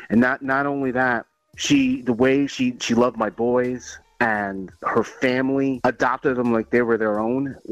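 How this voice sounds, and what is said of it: Choked up, emotional voice. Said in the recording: “I'm getting a little choked up.”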